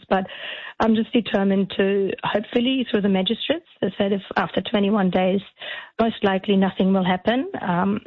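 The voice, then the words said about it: Hoarse, strained voice. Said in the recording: “you can hear I'm losing my voice because I've been talking so much”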